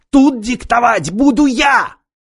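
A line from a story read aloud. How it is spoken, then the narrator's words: Hysterical yell. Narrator (Russian): истерически заорал Корбут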